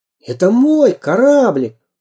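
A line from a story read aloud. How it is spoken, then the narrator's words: Exclaiming. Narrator (Russian): воскликнул Самоделкин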